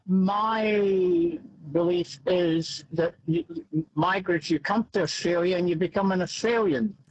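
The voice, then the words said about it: Scottish-New Zealand accent. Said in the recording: “as you can tell by my accent, I'm one myself, a Scotland, New Zealand person”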